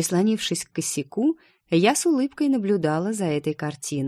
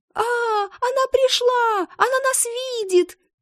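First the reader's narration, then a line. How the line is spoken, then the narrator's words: Boys squealing. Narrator (Russian): Мальчишки взвизгнули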